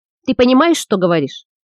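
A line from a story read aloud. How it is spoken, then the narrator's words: Plain question. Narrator (Russian): спросил Лукус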